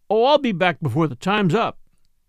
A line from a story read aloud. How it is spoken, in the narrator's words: Jack laughed and said